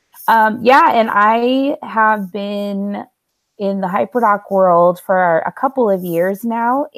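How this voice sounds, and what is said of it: Voice sounds sick, stuffy. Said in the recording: “I have a little cold tonight too, everybody. I don't normally sound this amazing.”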